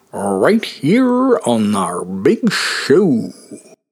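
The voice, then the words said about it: Poor impression of a TV host. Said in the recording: “That last thing was supposed to be Ed Sullivan. I will admit a very bad impression of Ed Sullivan.”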